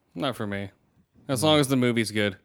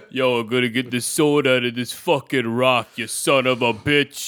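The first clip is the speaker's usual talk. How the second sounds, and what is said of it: Exaggerated New York accent. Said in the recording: “I don't care if he has a New York accent.”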